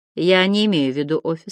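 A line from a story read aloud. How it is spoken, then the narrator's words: Very calm. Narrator (Russian): сказал он очень спокойно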